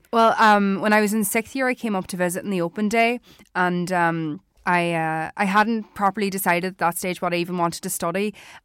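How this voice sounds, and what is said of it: Irish Donegal accent, not Dublin. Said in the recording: “That's not a Dublin accent. ... Donegal.”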